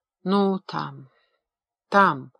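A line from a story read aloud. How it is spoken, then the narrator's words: Strangled voice. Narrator (Russian): сдавленным голосом проговорила она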